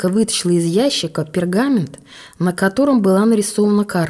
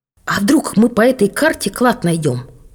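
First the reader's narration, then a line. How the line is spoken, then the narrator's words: Exclaiming. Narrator (Russian): воскликнул Мирослав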